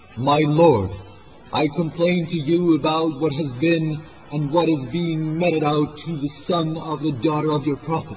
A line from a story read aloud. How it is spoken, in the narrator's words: exclaimed